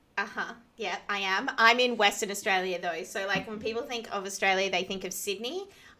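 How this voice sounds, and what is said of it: Australian accent. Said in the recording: “you're based in Australia, obviously, by the sound of your accent.”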